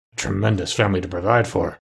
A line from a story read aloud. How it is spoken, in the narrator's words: muttered Scrooge